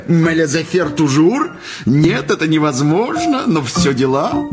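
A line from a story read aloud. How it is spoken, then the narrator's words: Rippling laughter. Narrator (Russian): Дама смеялась журчащим смехом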